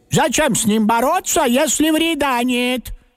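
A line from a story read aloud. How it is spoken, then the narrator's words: Loud agreement. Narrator (Russian): согласилась бабушка, тоже громко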